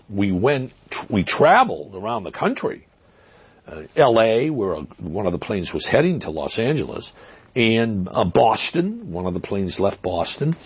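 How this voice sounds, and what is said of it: Boston accent. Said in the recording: “Is that a Brooklyn accent we're hearing? ... Boston. Some people accuse me of cultivating that accent ... I grew up in Massachusetts”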